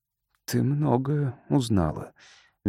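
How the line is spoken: Soft, gentle. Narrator (Russian): мягко сказал Кирон

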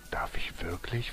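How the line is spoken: Plain question. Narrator (German): fragte er

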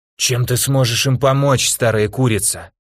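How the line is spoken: Hoarse rasp. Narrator (Russian): прохрипел

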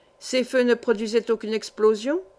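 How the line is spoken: Brisk question. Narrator (French): demanda vivement l'ingénieur

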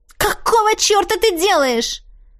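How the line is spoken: Yelling. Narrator (Russian): завопила с четким чувством дежавю

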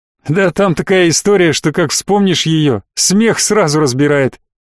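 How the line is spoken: Chuckling. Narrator (Russian): Гудрон хохотнул

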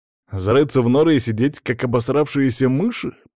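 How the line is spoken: Growling. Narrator (Russian): прорычал я

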